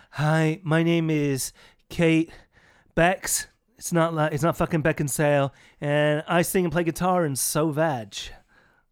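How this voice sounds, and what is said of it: Half-committed put-on accent. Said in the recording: “I didn't commit to the accent there.”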